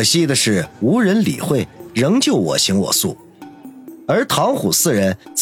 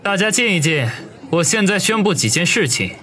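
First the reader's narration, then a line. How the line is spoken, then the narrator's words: Raised voice. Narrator (Chinese): 王宇 声音提高了几个分贝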